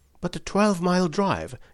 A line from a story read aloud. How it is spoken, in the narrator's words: gasped Hatherley